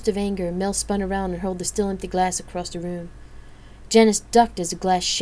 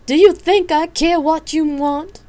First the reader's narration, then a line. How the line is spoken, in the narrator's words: Mel screamed, her face a dark red